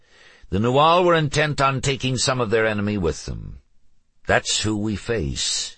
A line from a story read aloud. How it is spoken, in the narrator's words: he added in a stronger voice